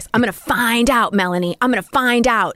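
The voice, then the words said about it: Screaming, aggressive quoted line. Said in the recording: “he's screaming in my face”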